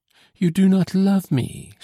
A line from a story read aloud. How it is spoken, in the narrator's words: she exclaimed